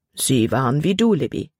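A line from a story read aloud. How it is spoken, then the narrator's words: Plain. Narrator (German): antwortete ihr Vater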